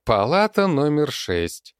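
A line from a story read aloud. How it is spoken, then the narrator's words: Sarcastic. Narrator (Russian): язвительно выкинула Алена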